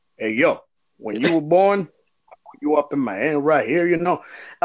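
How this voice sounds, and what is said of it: Imitates Rocky's voice, accent off. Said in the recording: “if it's Rocky ... Good but, accent.”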